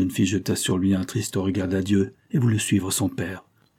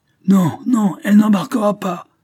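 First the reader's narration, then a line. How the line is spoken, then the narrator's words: Shouted. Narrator (French): cria Mrs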